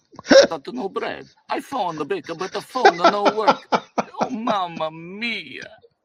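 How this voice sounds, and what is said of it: Comedy Italian accent. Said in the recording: “comedy Italian accent is amazing. Absolutely amazing.”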